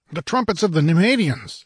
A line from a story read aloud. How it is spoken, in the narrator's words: exclaimed Palantides